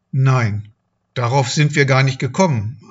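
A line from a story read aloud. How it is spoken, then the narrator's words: Plain. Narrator (German): antwortete Gilo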